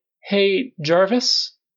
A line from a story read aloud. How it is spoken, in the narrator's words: called hesitantly